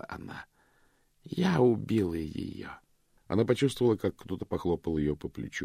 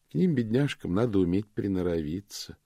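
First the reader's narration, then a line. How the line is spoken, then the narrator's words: Sympathetic murmur. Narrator (Russian): приговаривала она сочувственным тоном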